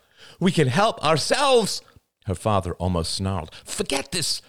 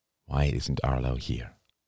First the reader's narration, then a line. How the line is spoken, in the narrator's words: murmured Bert